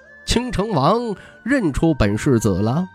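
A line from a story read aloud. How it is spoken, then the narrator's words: Laughing. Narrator (Chinese): 徐凤年笑道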